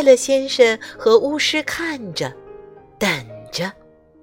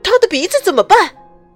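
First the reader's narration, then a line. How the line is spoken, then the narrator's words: Shouting. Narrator (Chinese): 快乐先生喊道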